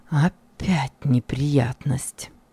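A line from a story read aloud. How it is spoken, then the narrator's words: Sighing. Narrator (Russian): Вздохнул я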